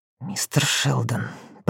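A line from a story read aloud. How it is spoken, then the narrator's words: Contemptuous hiss. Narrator (Russian): прошипела так, будто глупее имени в жизни не слышала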